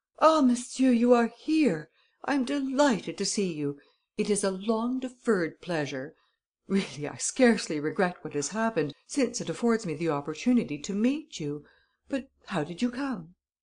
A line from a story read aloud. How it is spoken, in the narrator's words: Devanne exclaimed with much gusto